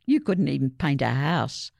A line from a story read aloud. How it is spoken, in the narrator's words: laughed Ryan